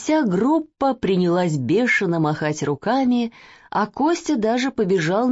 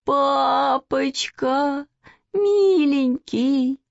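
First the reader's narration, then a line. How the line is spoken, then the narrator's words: Sudden whimper. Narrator (Russian): вдруг захныкала Маня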